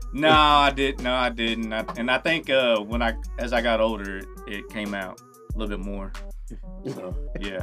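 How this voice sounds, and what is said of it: Country accent. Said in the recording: “so country ... My dad, he's from the country, and I think his country accent just came rolled over to me”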